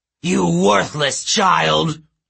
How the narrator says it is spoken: roared

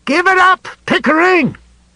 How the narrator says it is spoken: Nell shouted

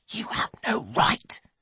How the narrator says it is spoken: she whispers furiously

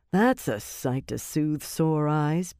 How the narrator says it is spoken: Birgitta murmured

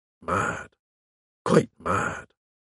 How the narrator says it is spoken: murmured Melchett to me

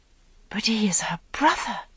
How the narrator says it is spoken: she whispered

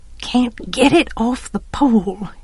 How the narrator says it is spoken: he muttered

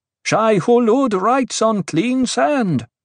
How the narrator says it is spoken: the acolytes shouted

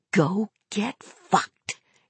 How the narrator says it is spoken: whispered

